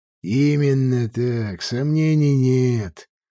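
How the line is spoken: Sigh. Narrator (Russian): вздохнул Мамри

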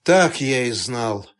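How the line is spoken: Dejected voice. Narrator (Russian): упавшим голосом произнес Турецкий

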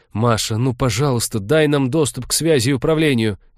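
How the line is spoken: Pleading. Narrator (Russian): взмолился уже Вениамин

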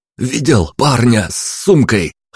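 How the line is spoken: Breathless wheeze. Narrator (Russian): хватая ртом воздух, просипел я

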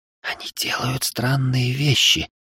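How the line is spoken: Girl whispering. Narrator (Russian): шепотом сказала мне девочка

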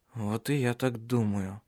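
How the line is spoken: Strained mumble in German. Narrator (Russian): С трудом пробормотал он по-немецки

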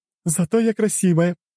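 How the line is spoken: Laughing out loud. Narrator (Russian): расхохоталась та

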